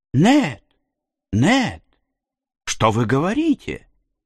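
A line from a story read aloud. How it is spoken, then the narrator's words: Exclaiming. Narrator (Russian): воскликнул Консель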